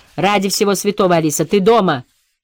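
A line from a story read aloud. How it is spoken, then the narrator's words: Shouted reply. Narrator (Russian): крикнула в ответ миссис Оустлер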